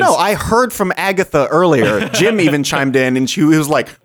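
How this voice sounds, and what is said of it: Usual voice. Nothing is said of it.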